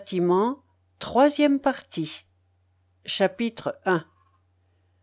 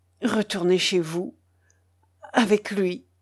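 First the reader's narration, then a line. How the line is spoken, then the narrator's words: Broken, halting voice. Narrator (French): dit-il d'une voix entrecoupée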